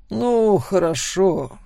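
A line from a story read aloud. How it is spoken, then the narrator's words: Sighing. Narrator (Russian): вздохнул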